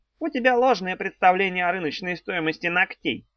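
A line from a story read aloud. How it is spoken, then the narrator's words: Snide, mocking. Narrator (Russian): ехидно сказал Горбун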